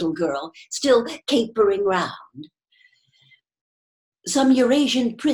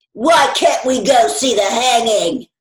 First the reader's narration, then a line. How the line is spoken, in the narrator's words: roared the boy in his huge voice